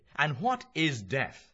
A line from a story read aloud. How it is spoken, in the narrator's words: he asked